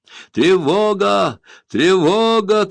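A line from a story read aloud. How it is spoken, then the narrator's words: Shouting. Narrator (Russian): кричал Айр-Дак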